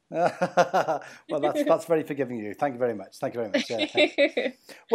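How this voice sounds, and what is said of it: Speaks with a noticeable accent. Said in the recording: “that's just his accent.”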